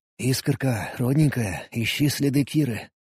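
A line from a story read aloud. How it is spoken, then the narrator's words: Whisper. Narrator (Russian): прошептал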